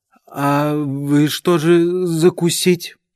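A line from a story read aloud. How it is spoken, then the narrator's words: Words forced out while chewing. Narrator (Russian): Прожевывая кусок икры, Степа выдавил из себя слова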